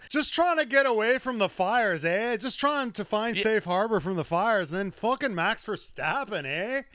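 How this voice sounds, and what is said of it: Put-on Canadian accent. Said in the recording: “This is a fun accent to do ... I had a Canadian friend ... he doesn't sound like this at all”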